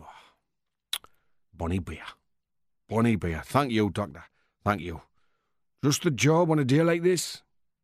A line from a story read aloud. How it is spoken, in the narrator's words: exclaim